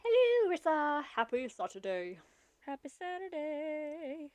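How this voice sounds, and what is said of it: Bad pompous British accent. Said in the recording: “a bad, uh, Mrs. Doubtfire or a bad impression of like some British pompous accent”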